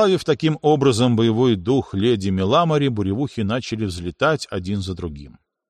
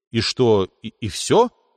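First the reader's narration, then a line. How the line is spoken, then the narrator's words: Bewildered question. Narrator (Russian): растерянно спросил я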